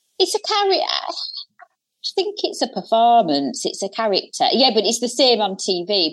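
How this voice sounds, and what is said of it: Regional Hull accent. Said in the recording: “the accent, being from Hull ... a regional area ... a real vice”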